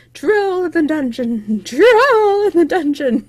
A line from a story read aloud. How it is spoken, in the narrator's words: Quirrell flying through them, shrieking